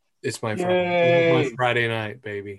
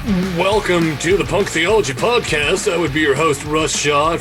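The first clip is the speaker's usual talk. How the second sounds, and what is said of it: Booming radio announcer voice. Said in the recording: “full radio voice coming in strong”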